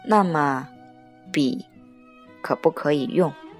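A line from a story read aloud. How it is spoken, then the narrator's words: Slow. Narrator (Chinese): 我慢慢的说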